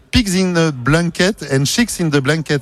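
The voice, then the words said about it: Strong put-on English accent. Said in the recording (French): “je vais essayer de faire fort sur l'accent.”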